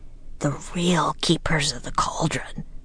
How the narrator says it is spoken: whispered Jack

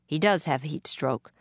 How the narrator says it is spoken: Clara said

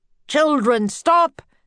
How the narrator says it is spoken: the professor shouted

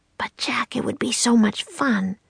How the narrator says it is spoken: whispered

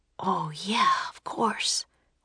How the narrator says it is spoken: whispered Jack

